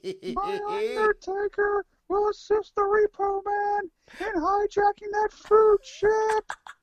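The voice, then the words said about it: Paul Bearer impression. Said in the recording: “a proper Paul Bearer impression ... let me do the voice”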